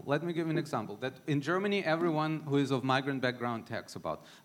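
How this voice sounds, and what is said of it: Slight non-native accent. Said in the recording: “I speak with a little bit of an accent”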